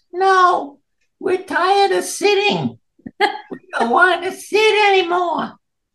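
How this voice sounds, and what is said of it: Small squeaky voice. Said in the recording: “This little squeaky voice”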